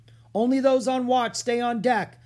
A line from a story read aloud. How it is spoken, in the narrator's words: the captain shouted